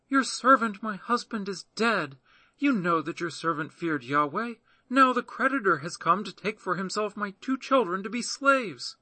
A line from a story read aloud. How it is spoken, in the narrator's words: a certain woman of the wives of the sons of the prophets cried out to Elisha, saying